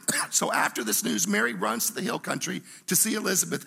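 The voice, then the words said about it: Raspy, hoarse voice. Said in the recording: “I feel like I'm going to start speaking with my whispering voice ... I may sing a song and sound like Springsteen ... I kind of like this raspy voice”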